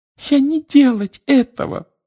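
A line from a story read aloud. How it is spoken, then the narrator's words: Frightened squeak. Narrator (Russian): пропищала она, вращая от страха глазами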